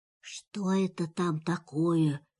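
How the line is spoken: Whisper. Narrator (Russian): шепнул тигр Пятачку

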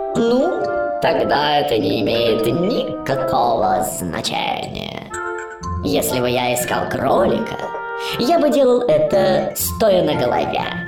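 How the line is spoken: Cat purring. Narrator (Russian): мурлыкнул кот

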